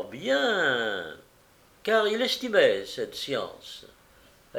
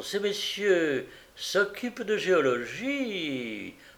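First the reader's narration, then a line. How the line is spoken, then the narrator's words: Smooth wheedling voice. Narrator (French): le curé d'une voix pateline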